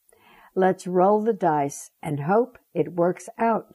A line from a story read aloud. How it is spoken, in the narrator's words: she said